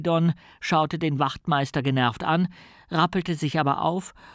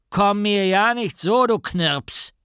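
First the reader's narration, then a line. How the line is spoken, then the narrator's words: Sergeant bellowing. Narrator (German): brüllte der Wachtmeister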